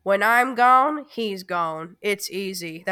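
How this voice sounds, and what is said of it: Imitates another person's voice. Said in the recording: “my Harrison Ford impression”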